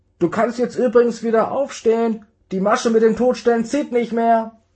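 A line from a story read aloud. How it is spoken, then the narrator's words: Called from inside. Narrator (German): rief Marlene kurz darauf noch von drinnen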